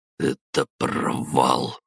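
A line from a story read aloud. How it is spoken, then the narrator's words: Mutter. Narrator (Russian): пробормотал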